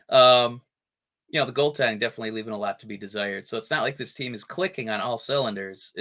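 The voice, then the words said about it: Hoarse, nearly lost voice. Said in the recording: “My voice is gone.”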